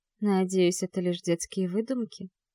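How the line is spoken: Very quiet. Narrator (Russian): очень тихо произносит Вика

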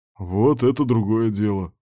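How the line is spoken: Amused snort. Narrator (Russian): хмыкнул Кирк

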